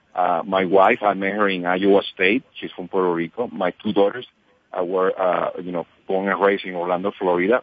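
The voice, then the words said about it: Puerto Rican accented English. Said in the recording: “I'm from Puerto Rico. I have my accent.”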